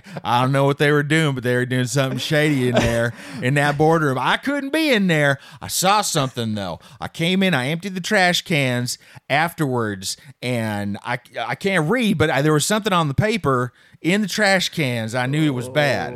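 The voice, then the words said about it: Put-on Southern US accent. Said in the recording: “I default to the southern accent, which is not fair.”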